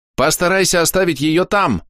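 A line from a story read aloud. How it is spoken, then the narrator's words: Shout. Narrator (Russian): крикнул огнемак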